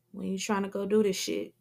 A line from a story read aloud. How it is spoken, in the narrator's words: Big Leon asked calmly